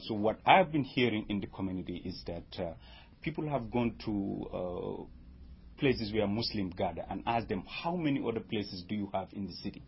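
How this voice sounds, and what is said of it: Non-native English accent. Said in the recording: “Listening to my accent will tell you that I didn't grow up here.”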